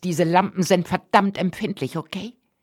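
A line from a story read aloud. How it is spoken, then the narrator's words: Irritated hiss. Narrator (German): fauchte Mary gereizt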